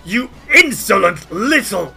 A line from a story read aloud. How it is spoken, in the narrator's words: As fire burns into him and he yips and howls, Hargulka snarls at you and says